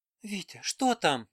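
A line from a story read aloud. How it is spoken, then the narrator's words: Trembling, faltering voice. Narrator (Russian): дрожащим голосом пролепетала Аннушка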